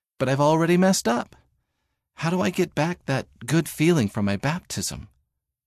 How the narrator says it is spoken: he told Mom, his voice shaking

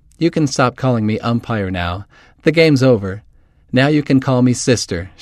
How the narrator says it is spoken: laughed

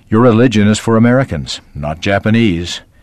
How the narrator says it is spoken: Grandfather grunted

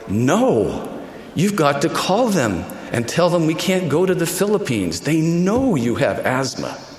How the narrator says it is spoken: my mother exclaimed

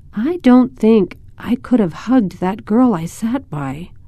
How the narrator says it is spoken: Jody said in a hesitant voice

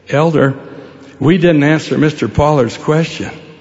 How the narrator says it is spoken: the junior companion said timidly

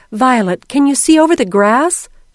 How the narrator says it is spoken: asked anxiously

